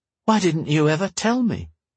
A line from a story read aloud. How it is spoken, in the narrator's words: Arch sighed